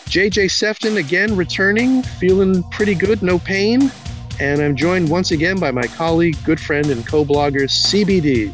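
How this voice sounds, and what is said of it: Thick Brooklyn accent. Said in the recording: “your thick Brooklyn accent”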